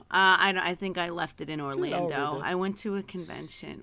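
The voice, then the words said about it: Hoarse, partly lost voice. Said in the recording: “lost my voice a little bit ... I was yelling and doing all that kind of fun stuff and talking very loud.”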